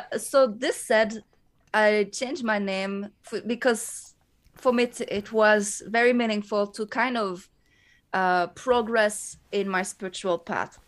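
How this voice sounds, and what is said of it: Thick French Canadian accent. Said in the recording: “I am a French Canadian, so this is why I have a thick accent when I speak”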